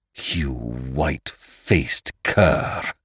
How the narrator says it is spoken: he snarled through clenched teeth

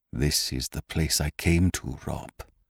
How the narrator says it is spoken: he said softly

